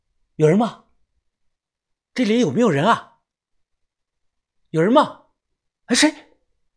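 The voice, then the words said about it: Quiet, hushed calling out. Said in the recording (Chinese): “小声的叫道”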